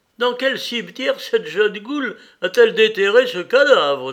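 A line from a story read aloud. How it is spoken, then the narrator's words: Exclaimed. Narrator (French): s'écria le plus élégant de tous les romantiques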